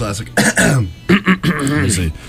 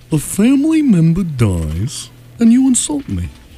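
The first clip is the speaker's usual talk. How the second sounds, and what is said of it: Imitates a film character's voice. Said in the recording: “That's my George Peterson impression ... From Ferris Bueller ... That was good ... That's actually really good”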